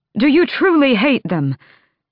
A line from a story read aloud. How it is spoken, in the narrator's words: Dorian blurted